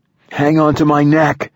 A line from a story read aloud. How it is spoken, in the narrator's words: I yelled